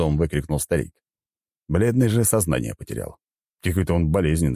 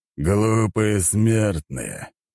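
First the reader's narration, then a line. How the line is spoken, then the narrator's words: Growling. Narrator (Russian): прорычал я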